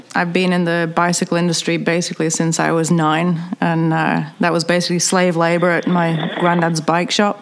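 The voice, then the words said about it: British accent. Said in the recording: “I have the world's most famous dodgy accent. I'm British”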